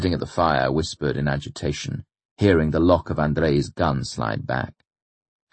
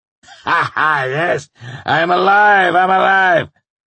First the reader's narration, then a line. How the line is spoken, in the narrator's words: he said, laughing